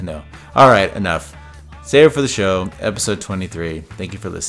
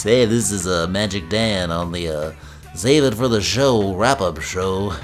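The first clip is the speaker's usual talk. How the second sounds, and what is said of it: Put-on different character voice. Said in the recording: “maybe I'll do it in a different voice.”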